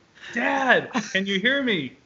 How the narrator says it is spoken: Brad yelled

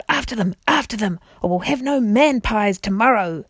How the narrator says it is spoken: the king's voice roaring out

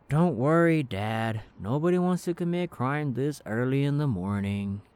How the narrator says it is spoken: Aiden just groaned and said

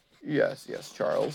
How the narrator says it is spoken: said Jock quietly

